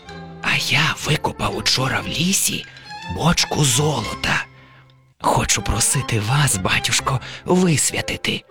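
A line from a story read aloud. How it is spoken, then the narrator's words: Whispered. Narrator (Ukrainian): Убогий каже пошепки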